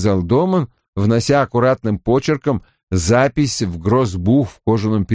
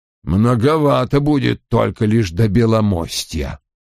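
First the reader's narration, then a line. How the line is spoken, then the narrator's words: Grumbling. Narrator (Russian): пробурчал Том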